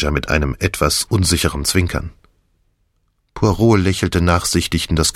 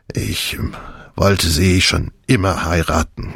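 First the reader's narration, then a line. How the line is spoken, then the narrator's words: Hoarse confession. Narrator (German): gestand mit heiserer Stimme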